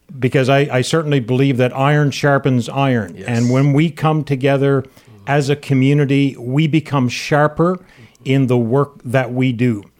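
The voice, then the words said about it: Newfoundland accent. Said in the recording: “in Newfoundland. I don't know if anybody will pick that up from my accent.”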